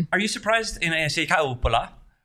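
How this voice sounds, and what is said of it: Put-on Finnish accent. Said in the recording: “I'm saying that with my Finnish accent.”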